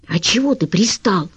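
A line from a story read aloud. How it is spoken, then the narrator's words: Meek whisper. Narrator (Russian): покорно зашептал Хохлов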